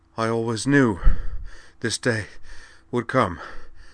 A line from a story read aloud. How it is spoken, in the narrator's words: panted Devlin